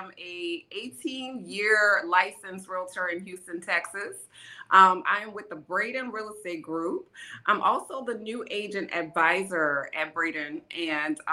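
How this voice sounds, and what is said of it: New Orleans twang. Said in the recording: “my New Orleans twang”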